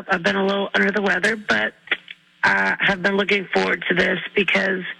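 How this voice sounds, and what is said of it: Rough, slightly damaged voice. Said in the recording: “my voice is a little messed up”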